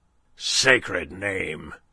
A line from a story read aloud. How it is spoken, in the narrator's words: growled a voice behind them